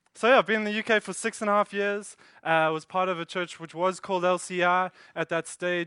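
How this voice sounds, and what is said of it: South African accent. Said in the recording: “if you're a bit confused by my accent or can't hear or understand what I say at some stage, I blame it on my South African heritage”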